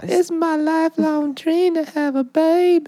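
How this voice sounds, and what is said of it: Southern accent. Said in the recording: “Or just the South ... a southern accent”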